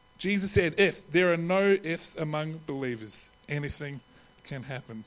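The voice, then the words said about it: New Zealand accent. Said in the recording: “my Kiwi accent, it can sound a little bit differently”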